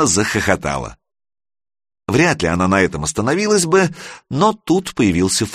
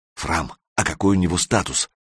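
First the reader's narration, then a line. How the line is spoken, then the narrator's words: Whispered question. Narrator (Russian): шепотом поинтересовался Санек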